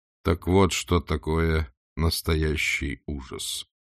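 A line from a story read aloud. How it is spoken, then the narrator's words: Calm inner voice. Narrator (Russian): спокойно констатировал его внутренний голос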